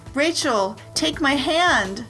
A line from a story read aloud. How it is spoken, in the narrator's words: cried Kristen from the other side